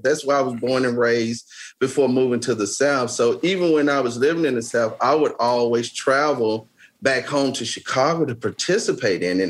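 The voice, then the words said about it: Heavy Southern American accent. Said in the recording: “I have this heavy Southern accent”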